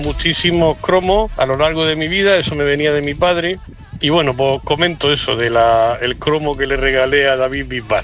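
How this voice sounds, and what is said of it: Regional Spanish accent like Bisbal's. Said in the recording (Spanish): “se nota que es de la misma tierra que Bisbal, ¿verdad? Por el acento.”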